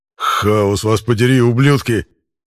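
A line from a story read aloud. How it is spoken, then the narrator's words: Snarled. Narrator (Russian): зарычал Эрик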